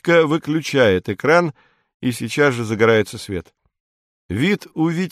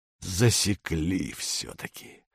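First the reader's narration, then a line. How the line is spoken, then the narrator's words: Hoarse mutter. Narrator (Russian): бормочет он хрипло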